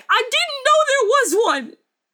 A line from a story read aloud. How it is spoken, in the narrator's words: I yell back